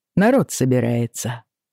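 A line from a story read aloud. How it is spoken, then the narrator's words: Casual tone. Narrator (Russian): сообщил небрежным тоном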